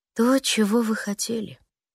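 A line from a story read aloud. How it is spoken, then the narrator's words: Tired. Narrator (Russian): устало произносит он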